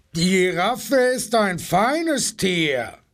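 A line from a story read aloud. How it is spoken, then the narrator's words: Rhino's roaring bellow. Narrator (German): brüllte das Nashorn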